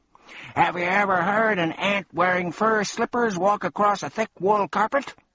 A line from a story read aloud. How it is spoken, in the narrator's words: he went on in his strange croaking way